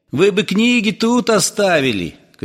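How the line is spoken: Shouted after someone. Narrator (Russian): крикнул ему вслед Кузнецов

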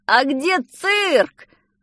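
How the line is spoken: Shouted. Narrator (Russian): закричал Петя

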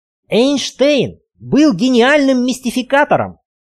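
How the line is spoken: Heated exclamation. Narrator (Russian): горячо воскликнул доктор

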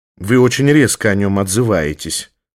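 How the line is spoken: Low, displeased. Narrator (Russian): заметил вполголоса и с неудовольствием Басистов

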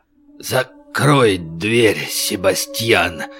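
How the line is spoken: Hoarse strained voice. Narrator (Russian): сипло выдавил из себя Клод

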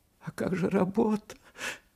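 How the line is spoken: Mother's trembling voice. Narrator (Russian): Дрожащим голосом проговорила мать

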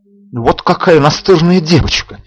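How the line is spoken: Angry exclamation. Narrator (Russian): в сердцах воскликнул дежурный

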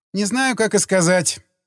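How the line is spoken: Laughing. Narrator (Russian): она засмеялась

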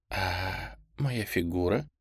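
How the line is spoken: Whisper. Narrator (Russian): она прошептала

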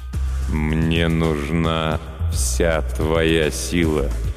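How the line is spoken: Slow speech. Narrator (Russian): медленно произнес некромант

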